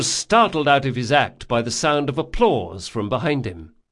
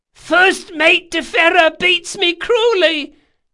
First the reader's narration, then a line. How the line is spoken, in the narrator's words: cried Jean in a squeaky voice